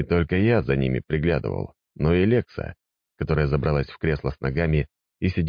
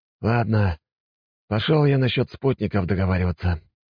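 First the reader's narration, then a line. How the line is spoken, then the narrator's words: Sighing. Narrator (Russian): вздохнул граф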